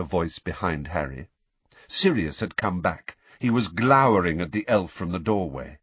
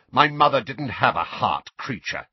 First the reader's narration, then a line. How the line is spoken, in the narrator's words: snapped Sirius